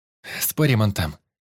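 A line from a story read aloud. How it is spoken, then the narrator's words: Giggling. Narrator (Russian): хихикнула брюнетка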